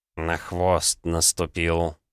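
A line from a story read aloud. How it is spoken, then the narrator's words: Gloomy reply. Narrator (Russian): мрачно ответил Савелий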